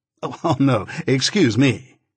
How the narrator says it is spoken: exclaimed the lawyer

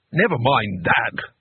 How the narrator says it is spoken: snapped Jigladwort

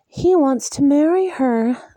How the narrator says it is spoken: Elaine said dreamily

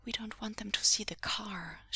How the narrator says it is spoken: she murmured

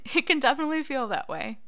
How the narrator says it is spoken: Remus chuckles

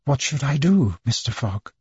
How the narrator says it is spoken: Then she said in that gentle voice of hers

